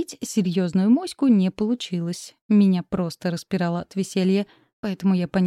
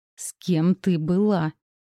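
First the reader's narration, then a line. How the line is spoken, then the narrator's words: Growl echoing down corridor. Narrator (Russian): Рычание разнеслось по коридору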